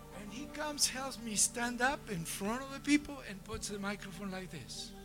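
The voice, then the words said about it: Non-native accent in English. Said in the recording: “I know I have an accent in my English”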